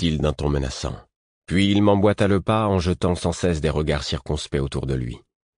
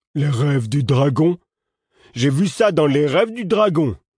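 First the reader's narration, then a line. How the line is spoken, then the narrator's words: Exclaiming. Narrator (French): s'exclama-t-il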